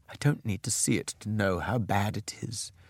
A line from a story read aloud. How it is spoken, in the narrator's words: she said quietly